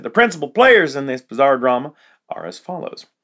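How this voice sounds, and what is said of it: Put-on accent. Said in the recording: “I'm adopting the accent.”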